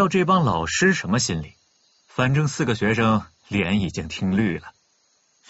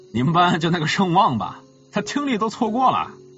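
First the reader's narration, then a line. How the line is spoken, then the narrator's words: Awkward dry laugh. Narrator (Chinese): 那个男老师干笑一声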